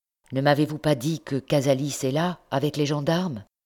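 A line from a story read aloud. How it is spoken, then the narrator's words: Plain. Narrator (French): demanda-t-il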